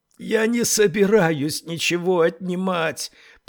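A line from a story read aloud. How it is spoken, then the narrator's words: Hoarse rasp. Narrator (Russian): прохрипела Тесла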